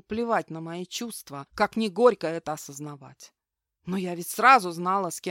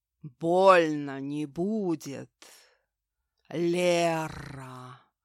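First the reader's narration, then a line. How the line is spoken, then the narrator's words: Guttural monster voice. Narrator (Russian): гортанным голосом выдал этот монстр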